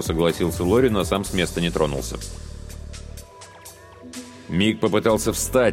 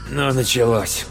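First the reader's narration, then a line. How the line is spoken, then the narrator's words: Rude gruff mutter. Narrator (Russian): грубо буркнул Лори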